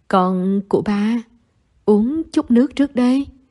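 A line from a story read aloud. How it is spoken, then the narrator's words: Warm, caring father. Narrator (Vietnamese): ba ân cần nói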